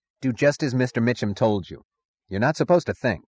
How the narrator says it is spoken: The road foreman snapped

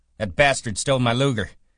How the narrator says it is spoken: shouted

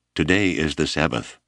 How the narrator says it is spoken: Abner said flatly

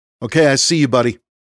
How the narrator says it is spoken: Rhys called out

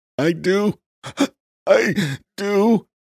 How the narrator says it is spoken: gasped Saul between hyperventilating breaths

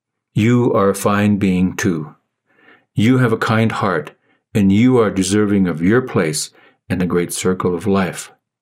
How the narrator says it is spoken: said the voice

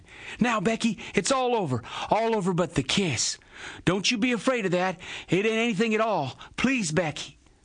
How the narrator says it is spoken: Tom pleaded

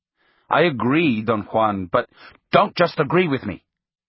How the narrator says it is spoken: he snapped

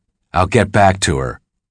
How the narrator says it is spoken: Dell said

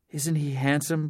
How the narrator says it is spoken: Blair whispered

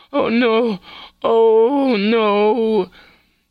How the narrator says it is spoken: the screaming from Tessa, followed by the moaning

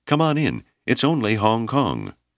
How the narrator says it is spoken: Malama cried

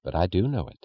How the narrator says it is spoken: said the woman, in the soft, mysterious tone of sharing a secret

